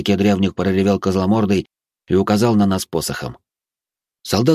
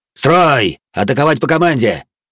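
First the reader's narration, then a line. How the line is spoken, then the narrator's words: Barked command. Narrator (Russian): рявкнул опомнившийся Зодд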